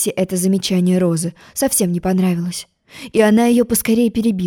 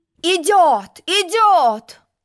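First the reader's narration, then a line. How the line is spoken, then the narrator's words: Shout. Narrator (Russian): крикнул пион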